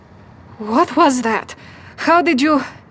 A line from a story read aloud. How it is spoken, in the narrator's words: frantically, shaking his head as he sputtered